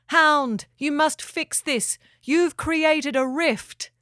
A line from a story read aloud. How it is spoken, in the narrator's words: Finn yelled from the cliff